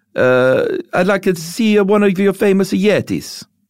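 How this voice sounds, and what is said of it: Bad put-on Greek accent. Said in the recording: “regardless of my bad accent, or maybe I should just edit back in and say that was my Greek accent”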